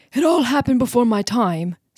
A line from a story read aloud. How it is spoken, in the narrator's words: said the farmer